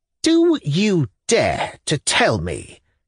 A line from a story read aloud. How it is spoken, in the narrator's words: he said, savagely articulating his words, as it were, syllable by syllable